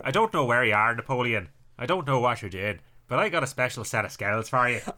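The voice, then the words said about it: Northern Irish and Scottish impression voice. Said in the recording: “That sounds like a Northern Irish Sean Connery. It sounds like Liam Neeson crossed with Sean Connery, doesn't it?”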